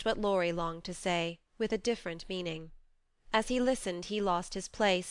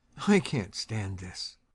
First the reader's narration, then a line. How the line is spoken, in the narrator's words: muttered the old gentleman